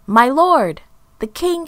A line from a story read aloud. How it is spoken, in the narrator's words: shouted